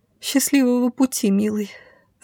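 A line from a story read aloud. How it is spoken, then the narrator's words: Trembling voice. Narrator (Russian): ответила дрожащим голосом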